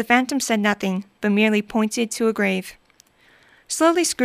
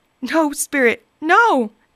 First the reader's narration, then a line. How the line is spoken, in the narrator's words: cried Scrooge, dropping to his knees